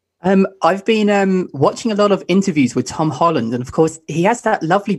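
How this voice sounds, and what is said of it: Forced British accent by an American. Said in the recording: “it's forced. You can definitely tell. You can tell it's an American trying to be British... It's very forced.”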